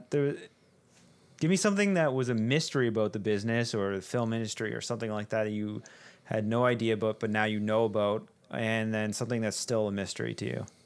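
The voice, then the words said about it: Canadian accent. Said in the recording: “you sounded so Canadian there. A boat. ... A boot? ... I just really heard it.”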